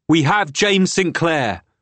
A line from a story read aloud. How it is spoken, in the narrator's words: Will called in a loud voice